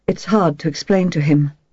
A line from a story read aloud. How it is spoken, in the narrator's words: continued Guillaume in his soft, precise voice